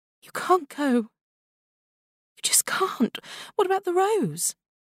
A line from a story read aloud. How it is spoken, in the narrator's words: Belle begged